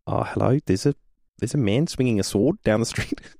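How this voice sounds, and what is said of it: Bad put-on New Zealand accent. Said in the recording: “That's a really bad New Zealand Kiwi accent.”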